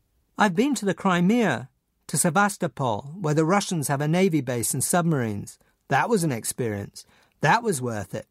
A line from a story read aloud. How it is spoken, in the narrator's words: said